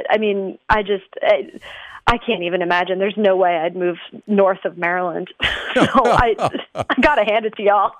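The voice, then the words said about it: Texas accent. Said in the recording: “I get that y'all. That's that Texas accent coming in.”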